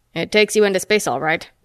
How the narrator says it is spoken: Metaxa snorted

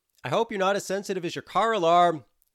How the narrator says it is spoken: yelled Barbara as she took off at a run

